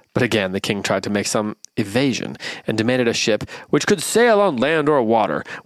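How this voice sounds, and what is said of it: Reads aloud in a put-on accent. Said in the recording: “this is definitely the same accent I used last time”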